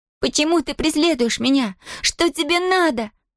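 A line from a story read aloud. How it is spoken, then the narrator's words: Screaming. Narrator (Russian): закричала она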